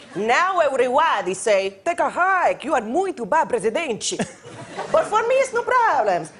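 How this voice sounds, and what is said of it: Funny accent impression of Dilma Rousseff. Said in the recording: “it's just a funny accent ... Maya Rudolph, Dilma Rousseff”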